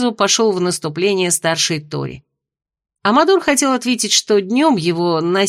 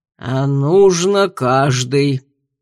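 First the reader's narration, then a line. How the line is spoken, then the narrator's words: Grumbling parent. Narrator (Russian): проворчал родитель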